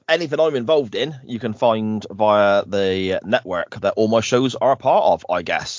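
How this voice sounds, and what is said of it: Hull accent. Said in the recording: “lovely Hull accent”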